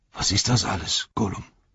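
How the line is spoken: Whisper. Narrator (German): sagte er flüsternd

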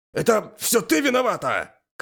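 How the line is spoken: Shouted. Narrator (Russian): крикнул я Элис

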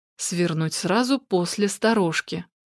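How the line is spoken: Quiet. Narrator (Russian): тихо произнесла Александра

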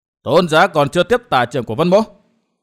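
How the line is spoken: Loud shout. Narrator (Vietnamese): Vân Thiên Nhạc quát lớn

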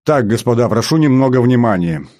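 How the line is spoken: Loud announcement. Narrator (Russian): громко объявил Смит

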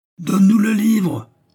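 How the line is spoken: Bass voice bellowing over tumult. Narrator (French): hurla une voix de basse dominant le tumulte

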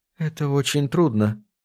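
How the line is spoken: Quiet reply. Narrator (Russian): тихо ответила она

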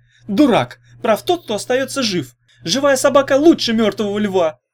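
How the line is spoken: Convinced shout. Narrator (Russian): убежденно крикнул Ягуни

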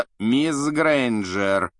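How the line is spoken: Icy, cutting rebuke. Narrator (Russian): ледяным голосом осадил Гермиона Снег

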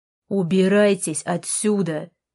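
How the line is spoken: Barked again. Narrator (Russian): рявкнул он снова

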